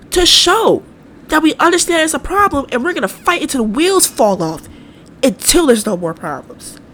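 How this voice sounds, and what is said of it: Impassioned preacher-style delivery. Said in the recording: “I probably got my preacher voice on, but I'm being real right now.”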